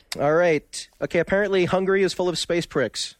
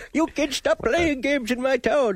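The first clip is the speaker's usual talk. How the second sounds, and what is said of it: Old man voice. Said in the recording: “Use your old man voice.”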